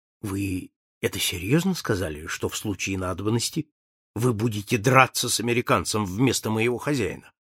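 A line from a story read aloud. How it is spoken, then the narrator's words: Secretive whispered question. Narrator (Russian): Пасспарту шепотом, чтобы ни мистер Фок, ни миссис Ауда не могли его услышать, спросил полицейского инспектора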